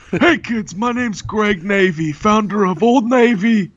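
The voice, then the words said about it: Old man voice like Bernie Sanders. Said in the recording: “this is my default old man voice ... you sound like Bernie Sanders”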